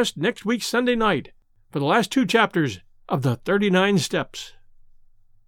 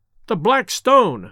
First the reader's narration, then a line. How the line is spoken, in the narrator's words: I cried